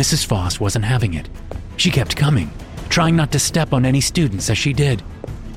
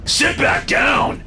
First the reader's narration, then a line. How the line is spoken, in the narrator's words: David shouted